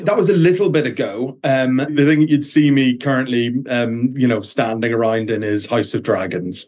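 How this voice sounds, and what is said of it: Irish accent. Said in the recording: “I love your accent... it was absolutely gorgeous. So you're an Irish actor.”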